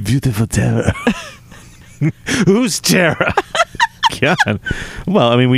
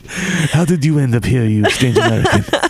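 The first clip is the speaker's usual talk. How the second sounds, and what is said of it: Put-on accent. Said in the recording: “So many accents.”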